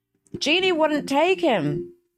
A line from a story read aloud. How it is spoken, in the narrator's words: she shouted as loudly as she could